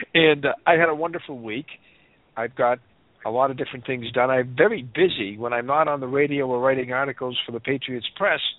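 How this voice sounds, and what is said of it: Voice affected by a cold. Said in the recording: “if you can probably tell from my voice tonight, I have a little bit of a cold”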